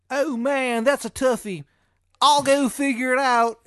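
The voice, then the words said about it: Exaggerated, poor Maryland accent. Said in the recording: “In his shitty Maryland accent.”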